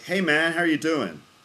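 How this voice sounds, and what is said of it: Bad put-on American accent. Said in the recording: “It's a bad American accent”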